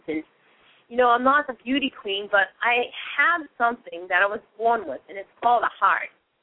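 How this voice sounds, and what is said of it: Boston accent. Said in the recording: “I'm a funny talking underdog girl from Boston. I've got the Boston accent.”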